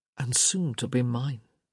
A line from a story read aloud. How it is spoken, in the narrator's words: he murmured